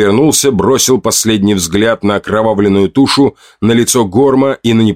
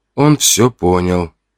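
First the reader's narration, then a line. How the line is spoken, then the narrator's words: Whisper. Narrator (Russian): прошептал я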